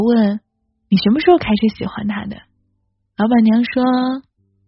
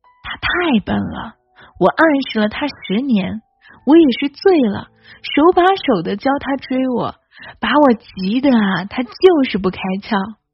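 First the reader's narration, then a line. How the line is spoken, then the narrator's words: Laughing woman. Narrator (Chinese): 老板娘笑着说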